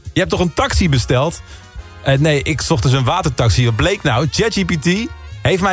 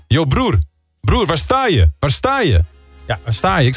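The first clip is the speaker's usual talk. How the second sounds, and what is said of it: Imitated Moroccan-Dutch accent. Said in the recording (Dutch): “met toch wel een vrij Marokkaans accent”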